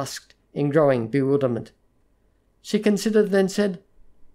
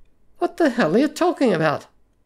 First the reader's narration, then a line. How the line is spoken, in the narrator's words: he cried, baffled